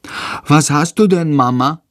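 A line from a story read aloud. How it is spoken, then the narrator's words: Plain question. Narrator (German): fragt Tom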